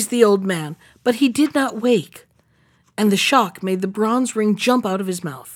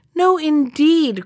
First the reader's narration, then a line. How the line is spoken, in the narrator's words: cried the mouse with the cropped ears